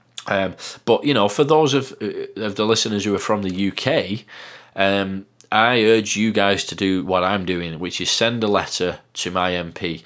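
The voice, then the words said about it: Northern English accent. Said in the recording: “some guy who sounds like Fred Dibner from Bolton ... my bizarre Northern accent”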